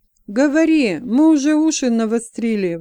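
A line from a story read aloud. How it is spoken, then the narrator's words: Exclamation. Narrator (Russian): воскликнул Орфис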